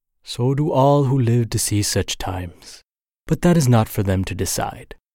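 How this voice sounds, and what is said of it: Bad Gandalf impression accent. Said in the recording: “Gandalf. ... Sorry for that bad accent.”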